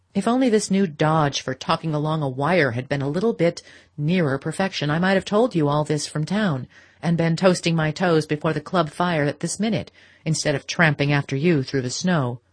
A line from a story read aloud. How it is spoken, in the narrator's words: he grumbled, disguising a real irritation under the pretense of it